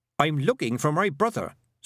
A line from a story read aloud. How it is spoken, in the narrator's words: said Tiffany sharply